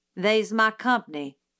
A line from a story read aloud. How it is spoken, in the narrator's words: said Calpurnia